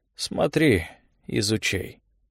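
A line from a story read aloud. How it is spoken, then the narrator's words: Drawled. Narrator (Russian): протянул он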